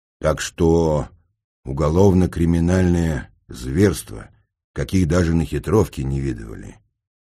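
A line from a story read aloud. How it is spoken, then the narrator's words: Gloomy. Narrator (Russian): мрачно продолжил будушник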